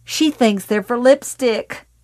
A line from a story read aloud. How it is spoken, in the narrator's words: Ruth Gogan suddenly shouted with cryptic glee